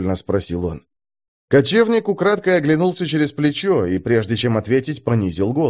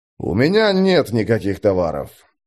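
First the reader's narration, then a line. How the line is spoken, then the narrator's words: Growl. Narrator (Russian): прорычал киммериец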